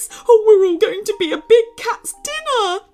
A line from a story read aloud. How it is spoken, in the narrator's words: squeaked Bear